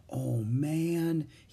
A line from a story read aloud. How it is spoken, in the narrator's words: he whispered